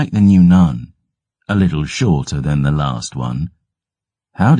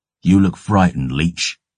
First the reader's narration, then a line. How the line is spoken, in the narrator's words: I spat